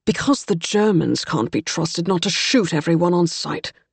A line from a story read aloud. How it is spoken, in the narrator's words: Captain DeWitt said roughly